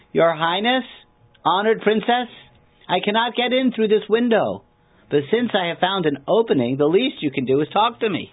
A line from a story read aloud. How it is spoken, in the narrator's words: Undaunted, called out